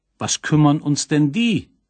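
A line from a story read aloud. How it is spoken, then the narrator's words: Called out. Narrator (German): rief nun schon der große Wächter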